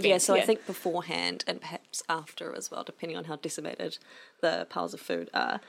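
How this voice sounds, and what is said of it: Croaky, hoarse voice. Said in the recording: “my voice is really croaky”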